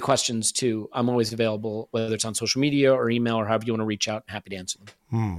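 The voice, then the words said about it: American accent. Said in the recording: “you're an American guy ... Do your best to hide your accent, mate”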